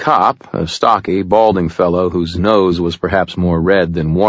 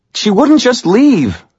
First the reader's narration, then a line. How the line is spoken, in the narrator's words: the young man half shouted